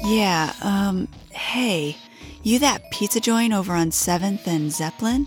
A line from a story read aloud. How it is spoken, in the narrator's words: his voice was always raspy, warm, and thick